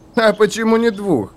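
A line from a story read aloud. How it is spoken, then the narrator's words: Companions laughing dismissively. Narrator (Russian): засмеялись его спутники, думая, что затея напрасна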